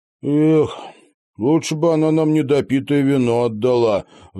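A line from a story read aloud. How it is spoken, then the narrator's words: Sighed. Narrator (Russian): вздохнул Тед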